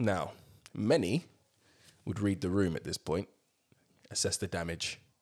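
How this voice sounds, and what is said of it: Usual voice. Nothing is said of it.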